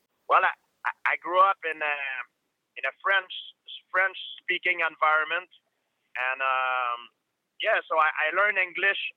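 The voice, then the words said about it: Thick French accent. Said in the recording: “you've got a nice, thick French accent”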